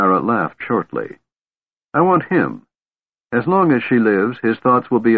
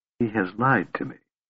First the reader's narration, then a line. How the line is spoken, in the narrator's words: she said softly after a moment